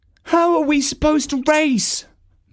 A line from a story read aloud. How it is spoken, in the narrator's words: moaned Prancer